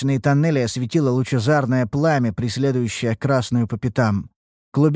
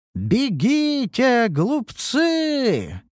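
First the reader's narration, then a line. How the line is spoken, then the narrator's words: Bellowing while running. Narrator (Russian): Проревела белугой, несущаяся по коридору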